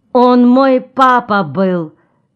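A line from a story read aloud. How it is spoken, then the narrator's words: Ringing glassy little voice. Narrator (Russian): звонким стеклянным голоском своим ответила Ксана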